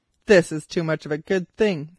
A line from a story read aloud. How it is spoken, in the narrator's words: he yelled